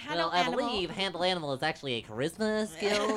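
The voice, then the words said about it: Nerdy character voice. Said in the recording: “do that nerd voice a little too well”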